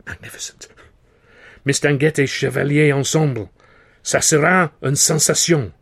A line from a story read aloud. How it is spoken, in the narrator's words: Banel cried